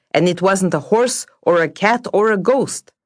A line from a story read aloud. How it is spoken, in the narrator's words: snarled Pyotr